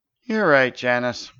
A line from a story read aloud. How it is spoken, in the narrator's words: sighed Stavius